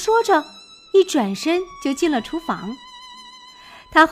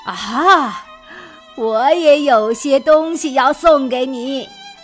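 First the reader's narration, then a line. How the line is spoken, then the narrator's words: Smiling grandmother, sudden recollection. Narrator (Chinese): 索菲亚奶奶微笑着，然后她好像忽然想起了什么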